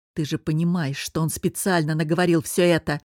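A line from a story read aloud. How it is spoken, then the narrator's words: Growled. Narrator (Russian): Прорычал Костя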